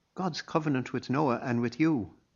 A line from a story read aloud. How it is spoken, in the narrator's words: Donica exclaimed